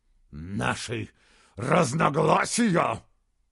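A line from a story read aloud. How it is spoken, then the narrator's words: Growled with pain and hurt. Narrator (Russian): прорычал Элиас, и в его голосе прозвучала боль и обида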